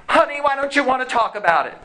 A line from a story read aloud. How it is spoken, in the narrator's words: she yells out